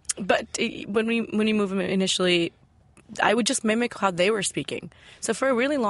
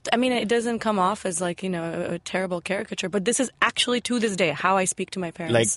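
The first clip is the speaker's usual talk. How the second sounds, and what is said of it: Indian-accented English. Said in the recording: “my Indian accent was intact ... we have an Indian accent ... Can you do that?”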